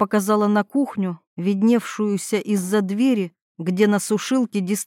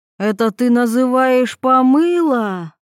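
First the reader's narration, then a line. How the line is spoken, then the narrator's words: Angry mother's shout. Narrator (Russian): заорала мать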